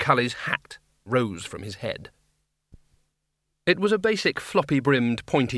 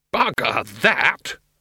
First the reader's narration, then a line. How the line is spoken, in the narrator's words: roared